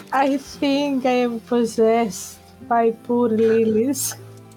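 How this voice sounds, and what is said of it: Very slow speech. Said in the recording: “You're talking very slow.”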